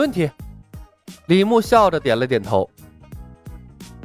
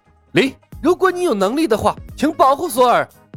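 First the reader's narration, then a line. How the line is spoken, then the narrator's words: Shouted. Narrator (Chinese): 格里姆 喊了一声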